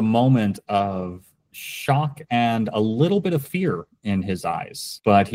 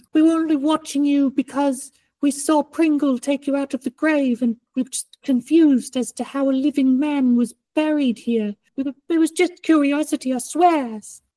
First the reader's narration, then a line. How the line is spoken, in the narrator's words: As he's like whimpering, he says